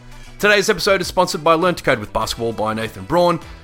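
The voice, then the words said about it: Voice strained from illness. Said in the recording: “Please excuse my voice on today's show. I'm a little under the weather”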